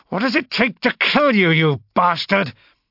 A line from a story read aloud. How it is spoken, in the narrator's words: I snarled, carried away by my own anger and disgust